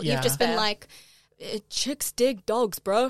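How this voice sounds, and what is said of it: Imitates a stereotypical straight man. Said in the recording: “that is my imitation of like ... straight man. ... Of a very like cishet.”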